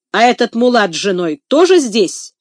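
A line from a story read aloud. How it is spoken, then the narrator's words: Angry question after pause. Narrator (Russian): сердито спрашивает он после паузы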